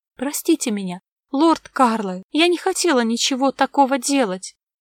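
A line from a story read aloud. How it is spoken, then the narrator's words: Sobbing mumble. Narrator (Russian): всхлипывая, бормотала Лина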